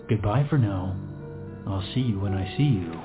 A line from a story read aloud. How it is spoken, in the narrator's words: said calmly